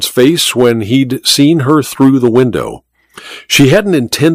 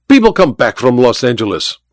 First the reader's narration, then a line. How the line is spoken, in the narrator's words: Olga snapped